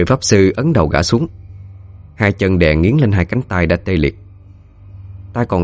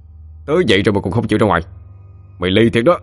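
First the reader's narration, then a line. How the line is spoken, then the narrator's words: Roar. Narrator (Vietnamese): Khá gầm lên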